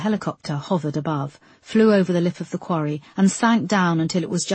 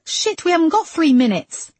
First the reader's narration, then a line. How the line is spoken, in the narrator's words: cried Moss